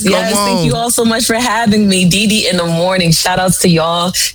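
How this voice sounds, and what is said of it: New York accent. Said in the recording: “I love that accent, though. Y'all hear her accent? That's that real New York accent”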